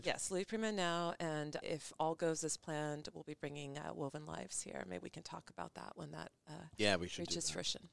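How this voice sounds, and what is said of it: Polished radio announcer voice. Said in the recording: “Have a great radio voice. ... She sounds like NPR.”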